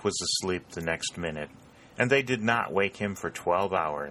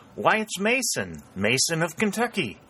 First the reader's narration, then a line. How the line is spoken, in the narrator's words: exclaimed the lad